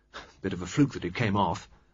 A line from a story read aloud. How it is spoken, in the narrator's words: Flushed and pleased, Reggie mumbled